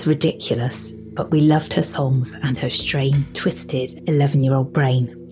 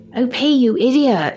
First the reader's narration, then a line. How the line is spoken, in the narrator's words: she shouted, almost giggling